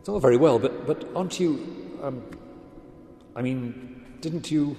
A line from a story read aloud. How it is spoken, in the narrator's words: stammered